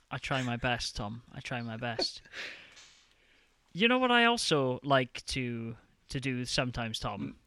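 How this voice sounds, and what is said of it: Gentle Welsh accent. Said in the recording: “You do have that gentle Welsh lilt”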